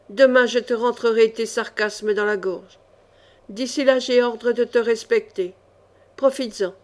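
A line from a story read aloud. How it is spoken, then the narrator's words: Baron growling. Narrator (French): gronda le baron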